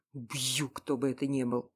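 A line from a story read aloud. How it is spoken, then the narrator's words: Muttered through clenched teeth. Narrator (Russian): процедил сквозь зубы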